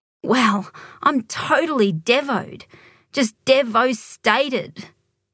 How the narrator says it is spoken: Shaneen moaned from behind the counter cluttered with chewing gum and chocolate bars

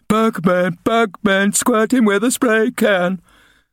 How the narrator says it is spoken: They yelled

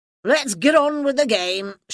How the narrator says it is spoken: shouted Mr

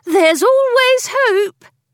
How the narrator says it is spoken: she added in a cheering tone

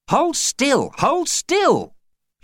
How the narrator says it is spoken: she'd bellowed at him

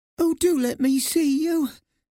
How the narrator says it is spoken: she pleaded

